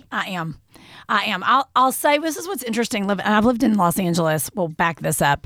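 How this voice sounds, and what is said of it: Kentucky accent. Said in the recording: “I love your accent. ... Love your accent. ... You are a native of Kentucky.”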